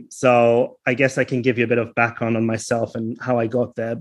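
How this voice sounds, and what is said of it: Thick German accent. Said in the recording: “a thick German accent”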